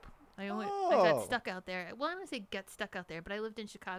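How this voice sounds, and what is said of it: Usual voice. Nothing is said of it.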